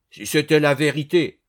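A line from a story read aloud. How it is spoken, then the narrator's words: Exclaiming. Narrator (French): s'exclama Dubosc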